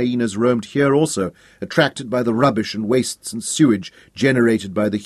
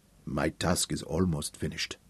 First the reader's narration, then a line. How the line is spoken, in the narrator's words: rumbled softly